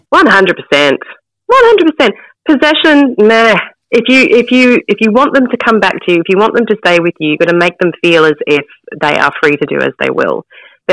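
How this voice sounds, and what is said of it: New Zealand accent. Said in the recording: “I'm a Kiwi, ... we can hear that accent in there.”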